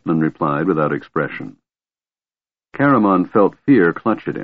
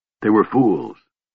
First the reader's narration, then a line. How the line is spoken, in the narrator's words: Raistlin said bitterly